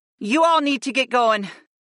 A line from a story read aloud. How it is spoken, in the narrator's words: urged us in a desperate tone